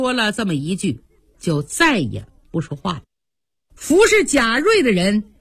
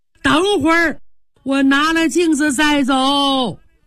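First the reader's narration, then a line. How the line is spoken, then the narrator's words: Shouting. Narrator (Chinese): 贾瑞还喊呢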